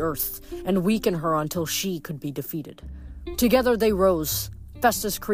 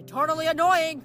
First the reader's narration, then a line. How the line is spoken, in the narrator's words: Leo yelled